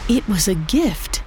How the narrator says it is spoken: In an awed whisper, she murmured

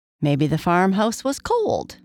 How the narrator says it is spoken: Chirpy Cricket suggested

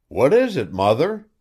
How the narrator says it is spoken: cried the husband and wife at once

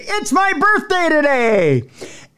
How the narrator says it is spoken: he screamed

